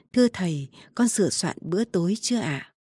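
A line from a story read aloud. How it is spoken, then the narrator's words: Soft, respectful. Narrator (Vietnamese): Tiểu Đồng khẽ vào bẩm với Chu An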